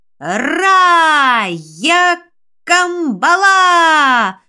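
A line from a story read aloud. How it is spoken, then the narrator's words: Wailing in strange voice. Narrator (Russian): Не своим голосом завопил Андрюша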